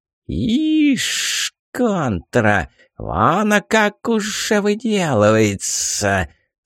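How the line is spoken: Old woman's snakelike hiss. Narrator (Russian): Снова змеей зашипела старуха

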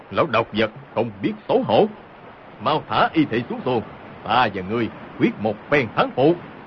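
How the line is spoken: Angry shout. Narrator (Vietnamese): Hồng Thất Công quát lên

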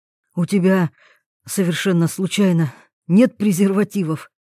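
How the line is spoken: Hoarse breathy. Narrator (Russian): хрипло выдохнул Тарас

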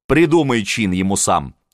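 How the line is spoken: Plain. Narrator (Russian): сказала Анна

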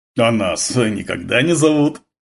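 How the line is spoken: Deep guttural grumble. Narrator (Russian): утробно проворчал Гурьянов

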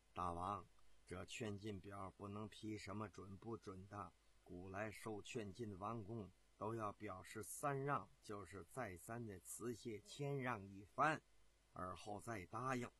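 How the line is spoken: Low murmur. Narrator (Chinese): 这个太监低声的在这个王建的耳边说道

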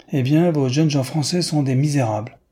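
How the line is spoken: Exclamation. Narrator (French): s'écria Newman

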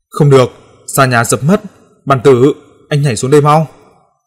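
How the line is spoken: Urgent loud shout. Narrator (Vietnamese): tôi vội hét to

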